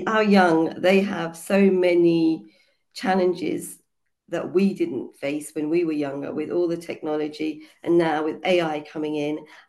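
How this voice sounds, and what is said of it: Hoarse, croaky voice. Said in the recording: “my voice is a bit hoarse because I've got a cold ... I'm sounding a bit croaky.”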